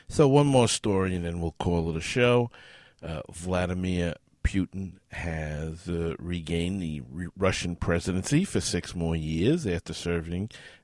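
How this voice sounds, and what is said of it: Strained, failing voice. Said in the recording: “as you can tell, my voice is starting to go, as I have obviously picked up something”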